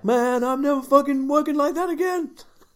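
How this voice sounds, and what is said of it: Imitates another person's voice. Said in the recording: “I've got to do the Gene voice.”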